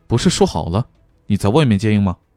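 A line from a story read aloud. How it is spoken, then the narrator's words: Low voice. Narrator (Chinese): 欧阳靖宇…低声说道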